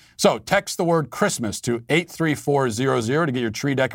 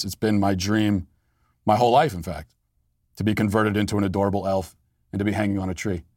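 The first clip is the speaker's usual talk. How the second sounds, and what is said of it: Sarcastic delivery. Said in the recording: “I'm being sarcastic”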